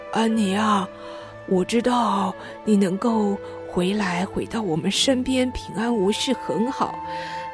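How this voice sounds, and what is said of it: Quiet, shy-sounding voice. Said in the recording (Chinese): “小声害羞地说”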